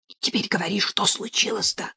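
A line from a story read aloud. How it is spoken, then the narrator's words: Loud whispered question. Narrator (Russian): громким шепотом спросила Катя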